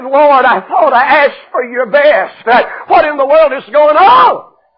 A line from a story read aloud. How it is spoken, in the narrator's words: with a broken heart, cried and said